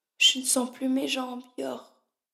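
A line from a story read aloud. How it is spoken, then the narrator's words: Murmuring. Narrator (French): murmura-t-elle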